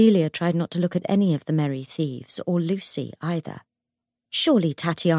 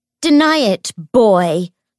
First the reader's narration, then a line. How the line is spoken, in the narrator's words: she shouted at James